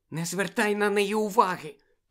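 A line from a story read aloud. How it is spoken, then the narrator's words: Whisper. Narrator (Ukrainian): прошепотіла Чо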